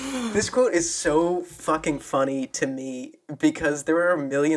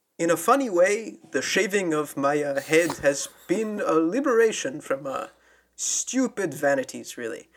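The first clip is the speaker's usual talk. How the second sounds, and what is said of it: Yul Brynner impression. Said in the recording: “I'm going to try to do a Yul Brynner voice.”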